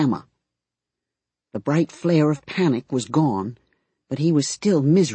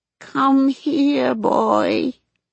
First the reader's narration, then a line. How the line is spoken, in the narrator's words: Grandma called in a dead, buzzing voice